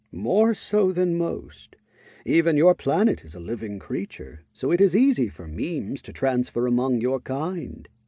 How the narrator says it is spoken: Tower admitted, calmly

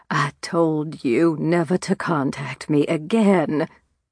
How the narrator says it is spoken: rasped

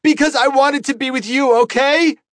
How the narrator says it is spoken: shouted and then burst into a sob

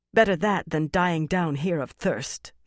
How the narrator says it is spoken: Fael replied, her voice harsher than she wanted

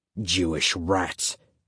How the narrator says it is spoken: Schindick said, sneering

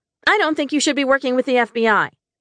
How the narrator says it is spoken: I snapped

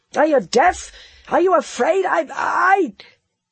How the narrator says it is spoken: And his rage choked him

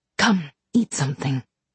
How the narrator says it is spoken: she said

